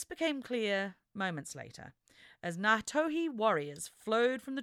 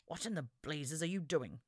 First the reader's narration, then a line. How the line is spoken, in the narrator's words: Lachlan muttered